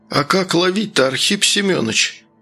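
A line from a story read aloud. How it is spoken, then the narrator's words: Village elder exclaiming. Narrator (Russian): воскликнул староста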